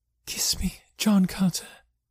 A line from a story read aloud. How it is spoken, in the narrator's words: she murmured